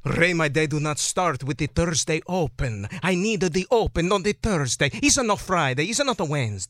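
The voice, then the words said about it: Inconsistent, wandering put-on accent. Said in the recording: “now the accent's all over the place”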